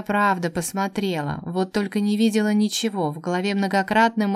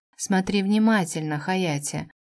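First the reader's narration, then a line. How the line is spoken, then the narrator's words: Quiet speech. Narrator (Russian): произнес тихонько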